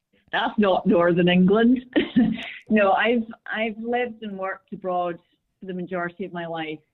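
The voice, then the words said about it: Scottish accent, somewhat unusual. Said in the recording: “You sound very Northern England, almost Scottish, but not... your accent was very Scottish... my accent's a bit strange”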